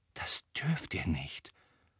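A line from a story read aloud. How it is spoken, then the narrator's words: Whispering. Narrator (German): flüsterte Hermine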